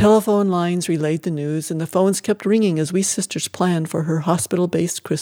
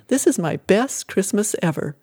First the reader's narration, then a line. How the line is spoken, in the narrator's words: Jennifer laughed and said